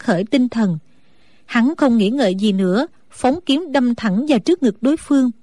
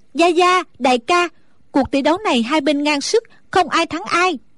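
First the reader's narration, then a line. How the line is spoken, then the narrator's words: Relieved loud call. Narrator (Vietnamese): A Tú thở phào một cái như cất được gánh nặng, nàng lớn tiếng gọi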